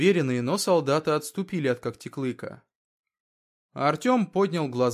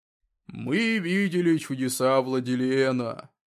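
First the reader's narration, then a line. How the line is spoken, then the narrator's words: Rough low voice. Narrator (Russian): заговорил грубым низким голосом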